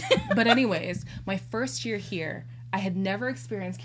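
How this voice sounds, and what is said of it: Usual voice. Nothing is said of it.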